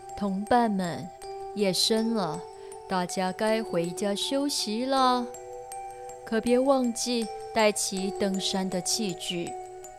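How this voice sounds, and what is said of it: Deep, rich character voice. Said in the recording (Chinese): “领队青蛙赤虎用他浑厚的声音说”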